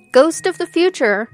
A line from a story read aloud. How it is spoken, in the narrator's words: he exclaimed